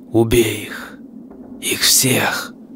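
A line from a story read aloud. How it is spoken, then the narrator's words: Faint inner whisper. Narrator (Russian): Раздался у него в голове еле различимый шепот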